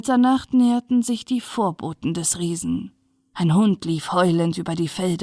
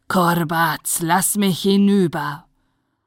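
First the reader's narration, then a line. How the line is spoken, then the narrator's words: Angry roar. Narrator (German): Wütend brüllte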